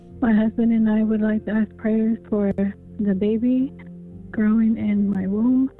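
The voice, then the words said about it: Shaky, emotional voice. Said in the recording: “my voice is a little shaky”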